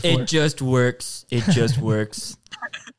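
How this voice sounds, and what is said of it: Imitates another person's voice. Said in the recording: “That's a pretty good impression right there.”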